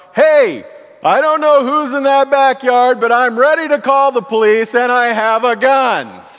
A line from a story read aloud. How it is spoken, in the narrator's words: my neighbor Jesse yells out